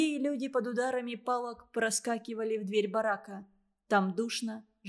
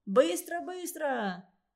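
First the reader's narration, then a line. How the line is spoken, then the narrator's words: Guards shouting. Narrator (Russian): кричали охранники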